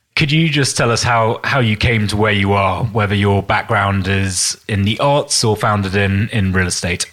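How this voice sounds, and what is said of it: British accent. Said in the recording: “It always sounds better with a British accent.”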